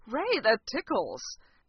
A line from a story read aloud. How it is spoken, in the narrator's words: Fraser giggled and gasped